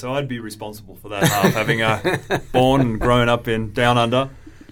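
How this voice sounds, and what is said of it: Australian accent. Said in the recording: “a bit of an unusual accent ... is Australian for realtor”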